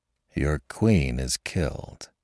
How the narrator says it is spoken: remarked Chekalinsky quietly

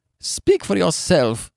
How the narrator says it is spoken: snapped through her sobs

